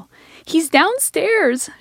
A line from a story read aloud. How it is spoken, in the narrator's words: she shrieked